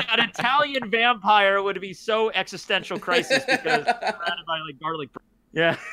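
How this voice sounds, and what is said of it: Usual voice. Nothing is said of it.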